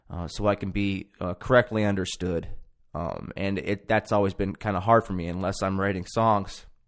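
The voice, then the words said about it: Slightly emotional voice. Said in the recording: “Get a little emotional,”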